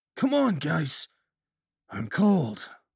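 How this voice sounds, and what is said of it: Flat, drained voice without accent. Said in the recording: “Daniel's voice was infectionless, drained of everything that made his voice his. Even his Brooklyn accent was gone.”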